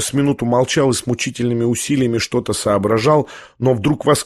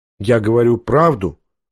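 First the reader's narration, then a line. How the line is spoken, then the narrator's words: Perfectly calm tone. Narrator (Russian): отвечал князь прежним совершенно невозмутимым тоном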